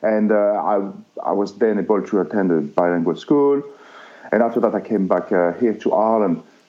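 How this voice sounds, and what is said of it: Speaks with a noticeable accent. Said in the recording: “I could listen to your accent all day”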